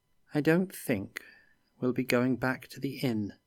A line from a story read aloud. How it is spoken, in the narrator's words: Felix said sadly